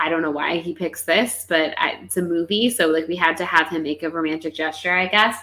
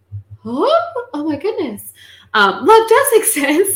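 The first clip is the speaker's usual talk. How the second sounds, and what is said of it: Imitates another person's voice. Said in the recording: “That's my impression.”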